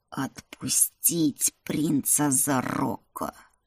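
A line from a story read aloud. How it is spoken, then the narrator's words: Orc hissing. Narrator (Russian): прошипел орк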